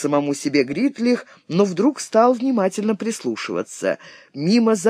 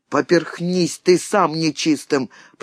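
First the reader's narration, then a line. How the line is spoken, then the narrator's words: Grumble. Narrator (Russian): проворчал Грим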